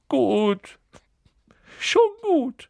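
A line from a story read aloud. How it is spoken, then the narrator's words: Sobbing. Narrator (German): hörte er Quirrell schluchzen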